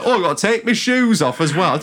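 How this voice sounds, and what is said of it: Put-on Yorkshire accent, angry man. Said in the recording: “I'm giving him a Yorkshire accent ... I just always think of a mildly entitled, angry middle-aged man as Northern”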